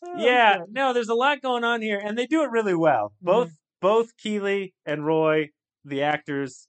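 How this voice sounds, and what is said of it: Usual voice. Nothing is said of it.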